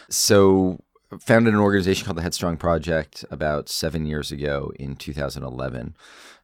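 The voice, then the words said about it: Congested, sick-sounding voice. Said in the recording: “I have a cold, which is why my voice sounds the way it does”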